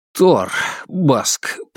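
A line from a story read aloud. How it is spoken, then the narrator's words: Pained mutter. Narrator (Russian): пробормотал я, превозмогая боль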